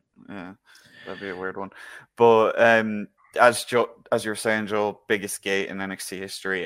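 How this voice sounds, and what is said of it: Irish accent. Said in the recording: “I am Irish. Just to break it to you, if you can't figure out my accent.”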